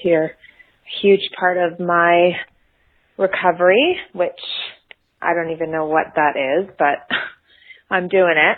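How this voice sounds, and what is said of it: Noticeable regional accent. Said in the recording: “there'll be a giveaway about where she's from by her accent”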